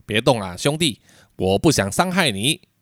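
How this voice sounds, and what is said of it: Low, deep voice. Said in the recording (Chinese): “用低沉的声音说道”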